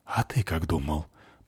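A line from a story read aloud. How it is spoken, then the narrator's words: Whispered reply. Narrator (Russian): прошептала в ответ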